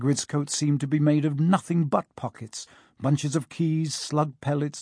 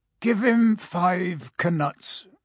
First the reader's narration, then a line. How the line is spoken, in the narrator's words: said Hagrid sleepily